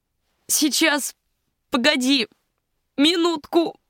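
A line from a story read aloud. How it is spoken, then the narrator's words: Hoarse rasp. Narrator (Russian): прохрипела она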